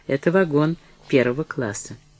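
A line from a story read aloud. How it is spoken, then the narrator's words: Dry. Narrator (Russian): Деннис сказал сухо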